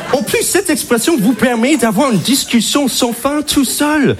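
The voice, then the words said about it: Strong American accent in French. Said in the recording (French): “t'es américain ... ton accent est très prononcé”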